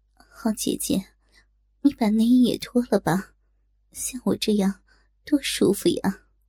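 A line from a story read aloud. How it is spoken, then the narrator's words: Gentle voice. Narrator (Chinese): 曼娘温柔的声音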